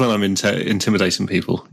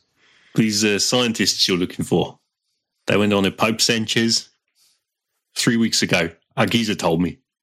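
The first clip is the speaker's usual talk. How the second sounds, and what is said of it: Put-on South African accent. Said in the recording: “I'm going to drop the South African accent now.”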